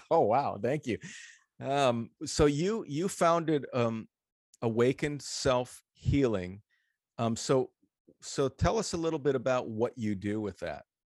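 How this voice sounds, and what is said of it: Radio voice. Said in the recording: “I love your voice, by the way... Radio voice.”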